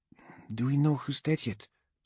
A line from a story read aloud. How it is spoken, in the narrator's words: Zenobi asked quietly